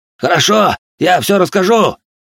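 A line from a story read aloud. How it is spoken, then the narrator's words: Yelling in surrender. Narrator (Russian): завопил искатель, сдавшись под напором моей жены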